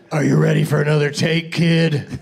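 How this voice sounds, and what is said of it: Imitates another person's voice. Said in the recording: “my impression of the director of that film ... wasn't a good Harrison Ford”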